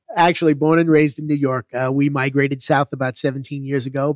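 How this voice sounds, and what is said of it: Non-local regional American accent. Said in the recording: “with the accent you have, you're not from around here originally”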